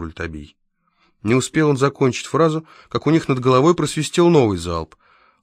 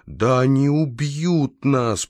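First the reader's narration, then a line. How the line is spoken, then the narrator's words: Groaned. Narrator (Russian): простонал он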